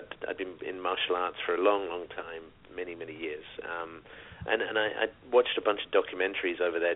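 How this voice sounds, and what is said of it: British accent. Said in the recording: “as you can tell from the accent, living in the UK”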